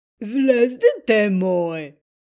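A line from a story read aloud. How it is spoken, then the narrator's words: Disguised voice. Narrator (Bulgarian): казал вълкът с преправен глас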